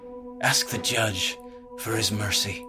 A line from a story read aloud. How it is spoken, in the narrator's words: Elias murmured, soft and somber